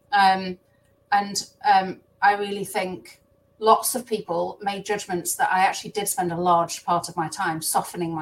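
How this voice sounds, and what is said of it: Strong regional British accent. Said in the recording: “I have a strong accent”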